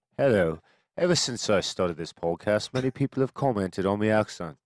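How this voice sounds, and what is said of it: Attempted Welsh accent, sounding Cockney. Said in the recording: “try out a Welsh accent ... Oh, it's Welsh ... They'd probably say that was Cockney ... that was little Cockney”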